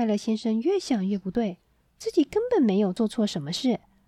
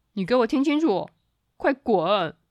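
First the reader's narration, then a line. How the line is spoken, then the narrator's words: Angry roar. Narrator (Chinese): 暴躁先生大吼一声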